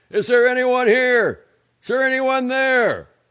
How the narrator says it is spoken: Father Kleinsorge shouted several times

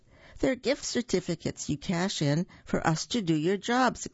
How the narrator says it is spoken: exclaimed Brother

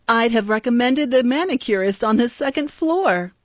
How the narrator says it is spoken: answered Verini with a laugh

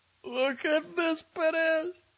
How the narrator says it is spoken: cried the man

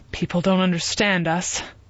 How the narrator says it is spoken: he sighed heavily

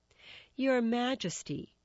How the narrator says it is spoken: the Duke of Exeter murmured

